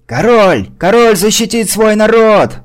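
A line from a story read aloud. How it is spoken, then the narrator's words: Fearful yell. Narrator (Russian): заорал, пытаясь криком заглушить растущий страх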